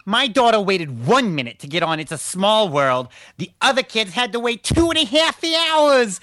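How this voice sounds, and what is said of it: Put-on snobby Manhattan mom voice. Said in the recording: “Do it in your Manhattan mom voice ... That sounded like the mom from The Sopranos. That was pretty good.”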